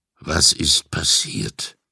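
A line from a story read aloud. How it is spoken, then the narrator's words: Deep-voiced question. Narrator (German): fragte er mit seiner tiefen Stimme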